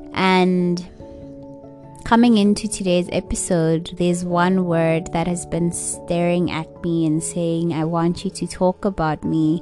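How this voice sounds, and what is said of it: Tired-sounding voice. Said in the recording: “I am feeling a bit tired. I can hear it in my voice.”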